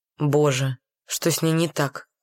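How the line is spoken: Muttered, male. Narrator (Russian): пробормотал ее спутник

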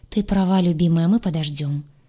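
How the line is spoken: Sighing. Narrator (Russian): сказал, вздохнув Сай

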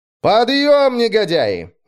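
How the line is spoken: Cheerful shout. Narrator (Russian): весело прокричал я

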